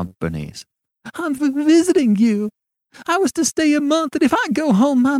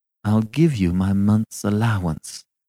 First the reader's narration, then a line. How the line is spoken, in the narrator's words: she said coldly